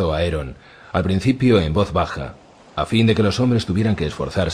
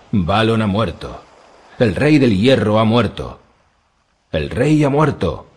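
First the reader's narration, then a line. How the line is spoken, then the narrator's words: Drowned men shouting. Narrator (Spanish): gritaron sus hombres ahogados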